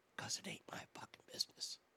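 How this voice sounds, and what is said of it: Whispering. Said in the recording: “I can I can whisper too”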